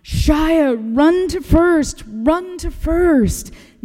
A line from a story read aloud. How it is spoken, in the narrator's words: Everyone started yelling